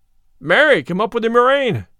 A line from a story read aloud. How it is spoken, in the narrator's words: cried the tanner, for he too had talked himself into a fume